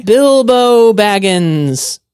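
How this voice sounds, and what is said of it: Young tenor wizard voice. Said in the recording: “my Gandalf impression ... pretty close. It was a pretty young wizard tenor”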